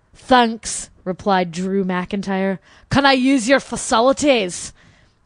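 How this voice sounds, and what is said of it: Well-practiced put-on accent. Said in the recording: “I practiced my accent for this... That's really good.”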